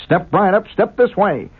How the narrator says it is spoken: cried the barker

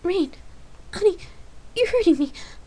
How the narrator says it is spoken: Lark gasped in missing air

